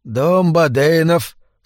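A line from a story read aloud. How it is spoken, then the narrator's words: Sleepy. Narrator (Russian): сонно сказал Эдвин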